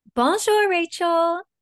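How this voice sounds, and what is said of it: Fancy put-on French accent. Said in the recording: “that was a fancy French accent”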